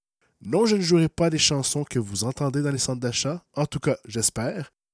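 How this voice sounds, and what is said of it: Slightly hoarse, congested voice. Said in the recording (French): “avec une voix un peu enrouée, un peu enrhumée”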